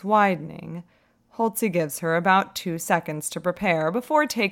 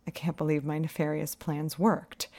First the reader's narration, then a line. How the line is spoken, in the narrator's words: she murmurs, laughter in her voice